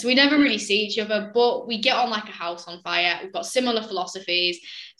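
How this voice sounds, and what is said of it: Northern English accent. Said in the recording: “I'm right up north, hence the accent”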